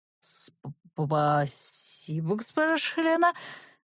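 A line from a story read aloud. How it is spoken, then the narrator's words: Hurried mutter. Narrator (Russian): пробормотал он, поспешно отворачиваясь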